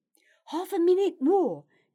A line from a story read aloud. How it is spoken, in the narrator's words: cried Gerard